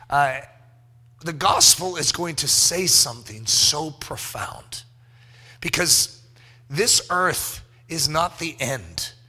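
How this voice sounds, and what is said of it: Hoarse, worn-out voice. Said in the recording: “Sorry about my voice, by the way... my voice went out somewhere along, somewhere in Friday... This is not the normal ... voice”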